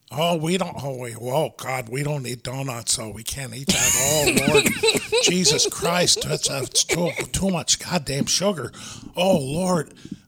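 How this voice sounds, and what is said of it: Exaggerated Minnesota-style accent. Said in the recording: “sound like Adam Sandler doing a Boston impression... they talk like they're from Fargo sometimes”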